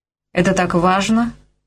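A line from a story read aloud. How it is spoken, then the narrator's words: Dry question. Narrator (Russian): сухо осведомился Грей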